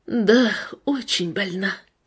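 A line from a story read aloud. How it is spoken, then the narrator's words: Heavy bitter sigh. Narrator (Russian): тяжело вздохнула женщина с горечью в голосе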